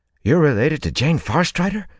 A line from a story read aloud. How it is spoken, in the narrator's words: Olver said excitedly